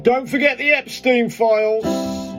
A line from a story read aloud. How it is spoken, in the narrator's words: someone shouting